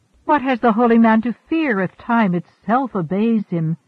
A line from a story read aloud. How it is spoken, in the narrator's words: she cried